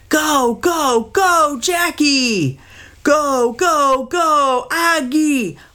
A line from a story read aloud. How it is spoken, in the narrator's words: dad screamed right along with them